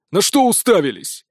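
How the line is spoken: Angry bark. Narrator (Russian): Привычно рявкнул злой Радзивилл

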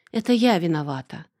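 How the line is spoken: Girl's sigh. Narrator (Russian): вздохнула девушка

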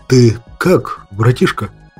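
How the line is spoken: Nervous, slightly frightened voice. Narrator (Russian): Нервно поинтересовался у меня снап слегка испуганным голосом

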